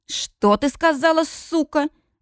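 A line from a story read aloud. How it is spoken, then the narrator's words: Furious roar. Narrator (Russian): взревел Колин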